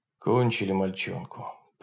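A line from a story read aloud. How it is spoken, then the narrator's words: Muttered. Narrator (Russian): пробормотал бородатый партизан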